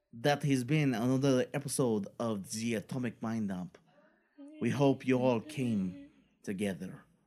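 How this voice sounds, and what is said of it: Put-on French accent. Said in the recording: “I go with my French accent.”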